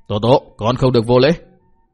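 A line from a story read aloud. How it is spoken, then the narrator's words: Angry scolding. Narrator (Vietnamese): Vô Trần dần dữ quát mắng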